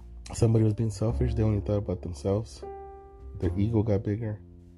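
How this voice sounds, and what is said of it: Strained, fading voice. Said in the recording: “I'm losing my voice. Oh, it feels like I'm losing it”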